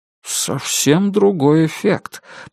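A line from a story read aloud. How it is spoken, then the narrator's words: Muttering. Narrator (Russian): пробормотал Роджер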